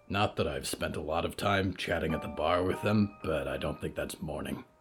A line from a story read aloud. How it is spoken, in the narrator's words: Hector grunted